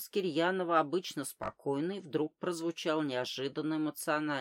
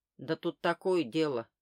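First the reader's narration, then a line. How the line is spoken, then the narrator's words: Steadier voice. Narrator (Russian): уже более ровным голосом продолжал Кирьянов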